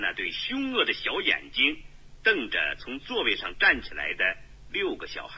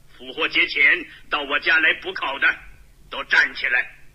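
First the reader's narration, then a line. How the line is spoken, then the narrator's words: Fierce loud roar. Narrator (Chinese): 虚弱而肥胖的神父，气势汹汹的，大声吼叫着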